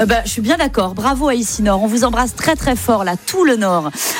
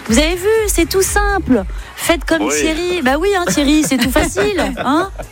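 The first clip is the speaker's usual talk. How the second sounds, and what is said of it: Put-on Belgian accent. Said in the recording (French): “j'ai pris l'accent ... belge.”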